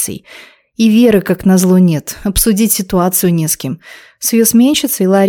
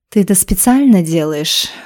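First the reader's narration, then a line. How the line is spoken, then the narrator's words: Silky, insinuating female question. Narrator (Russian): вкрадчиво поинтересовалась первая красавица, а по совместительству и стерва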